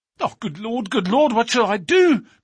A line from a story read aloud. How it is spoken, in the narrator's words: cried the stranger in an ecstasy of despair